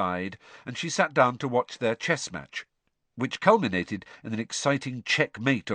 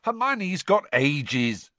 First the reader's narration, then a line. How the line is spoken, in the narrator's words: snapped Ron